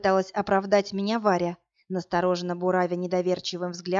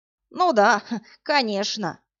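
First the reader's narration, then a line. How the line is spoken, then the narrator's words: Old man's snort. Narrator (Russian): фыркнул дед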